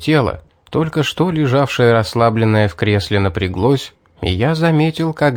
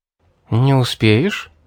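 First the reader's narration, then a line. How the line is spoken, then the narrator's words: Gentle question. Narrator (Russian): мягко спросила Мэри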